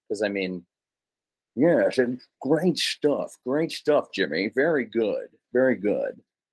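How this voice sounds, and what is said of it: Imitates another person's voice. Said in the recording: “who was that an imitation of? ... That was Carson.”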